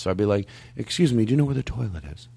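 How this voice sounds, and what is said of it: Softened Philadelphia accent, lower voice. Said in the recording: “I tried to soften the harsh Philadelphia accent that I have ... if I said it a little lower ... at least it's a little softer”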